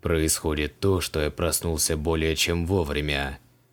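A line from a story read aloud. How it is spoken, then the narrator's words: Gloomy. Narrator (Russian): мрачно закивал Креол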